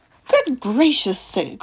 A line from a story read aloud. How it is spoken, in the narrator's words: cried Charlie